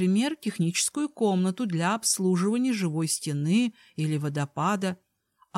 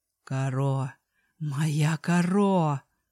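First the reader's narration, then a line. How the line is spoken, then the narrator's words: Muffled moan. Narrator (Russian): простонал, уткнувшись мне в волосы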